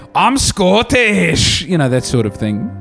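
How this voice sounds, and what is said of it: Unconvincing put-on Scottish accent. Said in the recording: “Always a good sign with doing an accent if you have to say what it is after you and before you do it... That was my Scottish accent.”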